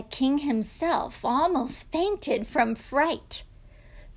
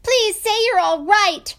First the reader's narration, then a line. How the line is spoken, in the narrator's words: shouted